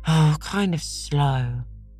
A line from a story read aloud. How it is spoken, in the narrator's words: said Davy with a sigh